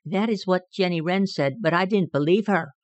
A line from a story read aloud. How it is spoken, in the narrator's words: replied Peter meekly